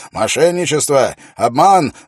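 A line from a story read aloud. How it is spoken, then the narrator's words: Shouting. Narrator (Russian): закричал он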